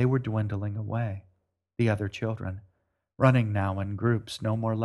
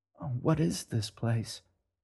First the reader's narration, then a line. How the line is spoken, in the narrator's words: the girl whispered